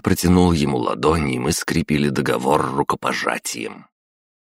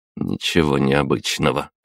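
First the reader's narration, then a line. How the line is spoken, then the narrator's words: Snort. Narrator (Russian): хмыкнул я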